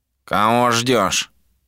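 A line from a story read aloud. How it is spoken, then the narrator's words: Nasal voice. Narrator (Russian): прозвучал гнусавый голос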